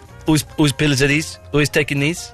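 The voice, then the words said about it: Put-on Greek accent. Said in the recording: “She's Greek. I'll try and do the accent.”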